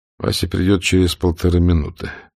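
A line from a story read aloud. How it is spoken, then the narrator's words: Tired thought. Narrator (Russian): устало подумал Штирлиц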